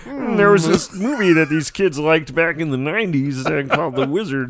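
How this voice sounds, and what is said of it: Kermit the Frog-like voice. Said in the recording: “your Kermit the Frog George Lucas impersonation”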